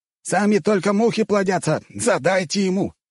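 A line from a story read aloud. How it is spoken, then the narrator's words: Spiteful shout. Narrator (Russian): со злобной улыбкой выкрикнул Тунгус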